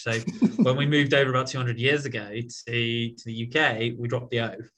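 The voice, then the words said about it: British accent. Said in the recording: “as you can probably tell from the accent, I am British born, uh, now a US resident”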